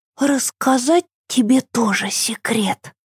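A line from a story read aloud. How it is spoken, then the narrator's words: Whisper. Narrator (Russian): прошептала Ева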